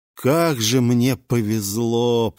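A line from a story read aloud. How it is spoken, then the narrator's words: Groaning. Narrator (Russian): простонал я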